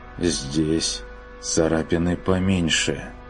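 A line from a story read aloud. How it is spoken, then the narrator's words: Almost inaudible, dull voice. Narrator (Russian): почти неслышным, тусклым голосом произнес Бруно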